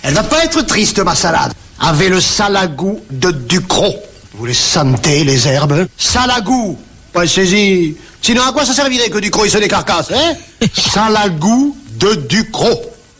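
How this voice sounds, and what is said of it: Heavy Provençal accent. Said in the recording (French): “un cuisinier moustachu avec un énorme accent provençal, vous l'avez entendu”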